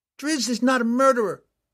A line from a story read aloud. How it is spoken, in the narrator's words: Catterby yelled back